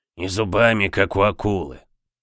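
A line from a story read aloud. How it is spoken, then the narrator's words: Hoarse rasp. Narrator (Russian): прохрипел Боб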